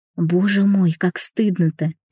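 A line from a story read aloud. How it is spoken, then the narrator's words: Moaning. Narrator (Russian): простонала я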